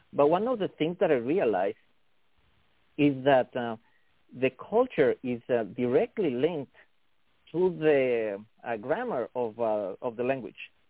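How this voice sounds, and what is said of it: Non-native English accent. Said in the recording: “you hear from my accent, English is not my first language. It's actually my third language.”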